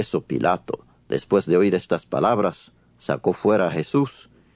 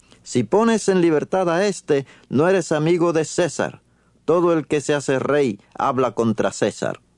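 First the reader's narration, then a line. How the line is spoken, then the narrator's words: Crowd shouting. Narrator (Spanish): los judíos gritaron diciendo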